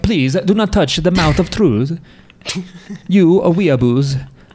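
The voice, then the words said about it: Put-on Italian accent. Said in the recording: “I hadn't hit the Italian accent yet”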